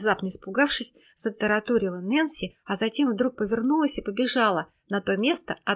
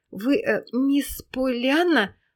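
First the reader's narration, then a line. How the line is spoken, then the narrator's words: Stammering question. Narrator (Russian): запинаясь, спросила она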